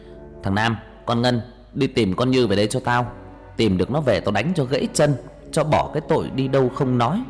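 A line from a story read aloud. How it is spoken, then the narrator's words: Angry shout. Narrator (Vietnamese): Ông đập bàn một cái quát thằng Nam với con Ngân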